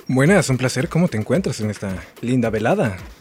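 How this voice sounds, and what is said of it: Radio announcer voice. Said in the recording (Spanish): “¡Qué voz de locutor que tenés!”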